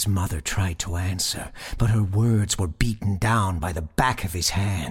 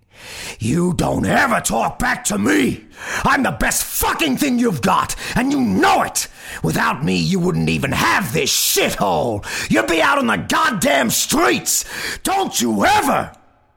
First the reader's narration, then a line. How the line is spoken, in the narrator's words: His father's shouting grew ever louder as he struck her over and over and over